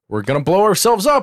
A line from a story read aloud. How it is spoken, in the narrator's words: LaForge shouts up to the bridge